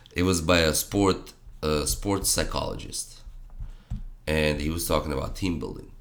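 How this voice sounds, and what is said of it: Strained, fading voice. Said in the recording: “losing my voice here.”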